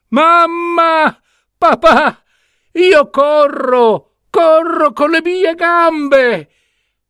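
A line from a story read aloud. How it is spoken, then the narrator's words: Emotional shout. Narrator (Italian): Marcellino, gridando con voce piena di emozione, chiamò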